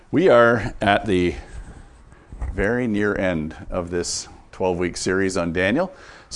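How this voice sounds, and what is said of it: Congested, slightly off voice. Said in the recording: “my voice sounds a little off. I'm just getting over a chest congestion.”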